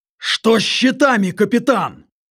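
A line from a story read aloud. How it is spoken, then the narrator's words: Barked over blaring sirens. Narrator (Russian): рявкнул Калиб, изо всех сил пытаясь перекрыть рев клаксонов и голос летописца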